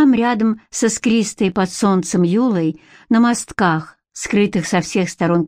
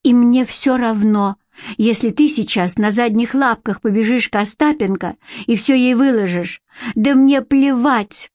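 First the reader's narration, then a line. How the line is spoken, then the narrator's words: Sobbing. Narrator (Russian): прорыдала она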